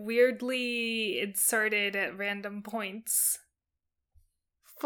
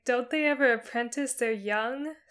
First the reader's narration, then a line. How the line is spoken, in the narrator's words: Sandstorm asked with a sigh